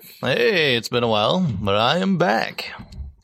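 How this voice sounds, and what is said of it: Put-on character voice. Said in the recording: “doing a voice... I'm doing a voice”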